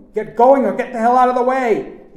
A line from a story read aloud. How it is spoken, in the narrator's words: he shouted